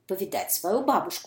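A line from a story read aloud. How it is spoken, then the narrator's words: Plain. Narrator (Russian): сказала Красная Шапочка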